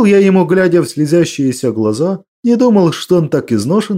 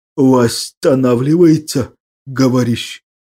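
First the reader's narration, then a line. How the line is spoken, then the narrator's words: Chief's hoarse voice, suppressing groans. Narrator (Russian): Прохрипел вождь, давя рвущиеся из груди стоны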